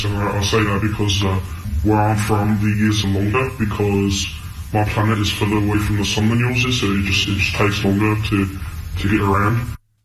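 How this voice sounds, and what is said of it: British accent. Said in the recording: “it is a British accent. It is not Australian, it's British.”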